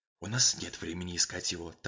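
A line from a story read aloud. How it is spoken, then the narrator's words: Whispered. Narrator (Russian): также шепотом ответил Мейсон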